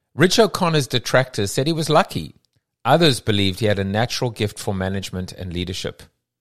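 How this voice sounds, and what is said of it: South African accent. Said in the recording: “my funny accent, my South African accent”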